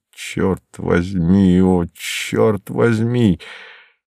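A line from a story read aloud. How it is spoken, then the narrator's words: Drunken low muttering. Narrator (Russian): шатаясь, как пьяный, и бормоча в полголоса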